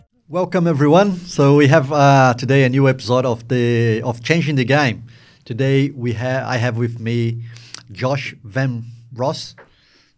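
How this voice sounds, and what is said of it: Speaks with a noticeable accent. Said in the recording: “my accent doesn't get it right”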